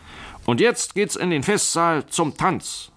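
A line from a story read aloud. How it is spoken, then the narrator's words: Host calling out. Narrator (German): rief der Hausherr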